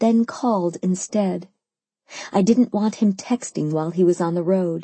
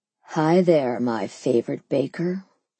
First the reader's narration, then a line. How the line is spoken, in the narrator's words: he purred